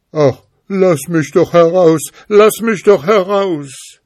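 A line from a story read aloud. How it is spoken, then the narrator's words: Pitiful calling. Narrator (German): der Geist rief ganz kläglich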